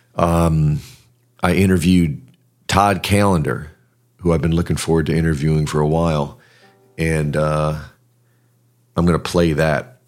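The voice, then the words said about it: Strained, fading voice. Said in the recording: “My voice is kind of going”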